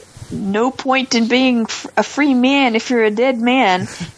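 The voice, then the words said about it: Put-on Canadian accent. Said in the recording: “super Canadian accent ... Amazing Canadian accent by an Alabama”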